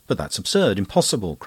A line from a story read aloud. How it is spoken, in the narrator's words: cried Anne